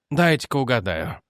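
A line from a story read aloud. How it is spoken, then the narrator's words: Gloomy. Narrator (Russian): мрачно сказал Элайдж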